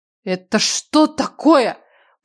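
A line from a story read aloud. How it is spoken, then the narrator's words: Growling. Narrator (Russian): прорычала я, будто брала уроки у Хамидзе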